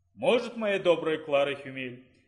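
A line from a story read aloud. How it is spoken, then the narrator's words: Calm reply. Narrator (Russian): Спокойно отозвался гость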